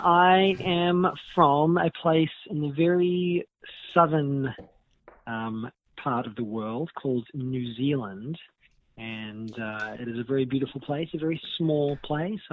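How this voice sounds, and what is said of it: New Zealand accent, slightly Americanized. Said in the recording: “I've managed to hold on to my New Zealand accent as best I can. I think some of my words have started to get Americanized a little bit.”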